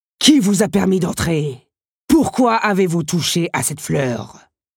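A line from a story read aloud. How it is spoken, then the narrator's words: Menacing roar. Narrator (French): avait rugi l'inquiétant personnage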